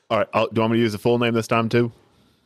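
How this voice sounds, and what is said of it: Put-on southern accent. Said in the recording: “talking in a southern accent”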